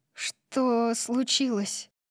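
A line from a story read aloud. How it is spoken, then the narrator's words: Muttered. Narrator (Russian): пробормотала я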